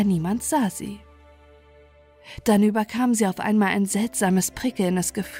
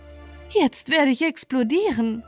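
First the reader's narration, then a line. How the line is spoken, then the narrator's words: Calling out. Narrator (German): rief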